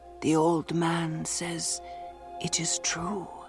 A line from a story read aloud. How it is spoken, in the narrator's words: he whispered